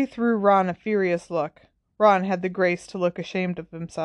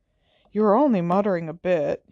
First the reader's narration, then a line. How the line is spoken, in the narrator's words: he mumbled apologetically